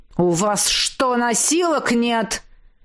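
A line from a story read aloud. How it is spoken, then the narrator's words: Exasperated growl. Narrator (Russian): зарычал я, устав наблюдать за черепашьим шагом горничной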